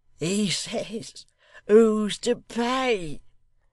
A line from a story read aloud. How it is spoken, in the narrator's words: cried Hugh with a roar of laughter